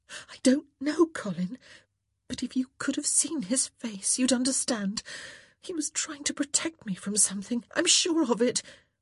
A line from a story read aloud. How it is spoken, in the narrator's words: She could feel herself growing agitated, feel her breath starting to come in jerky gasps, but still she continued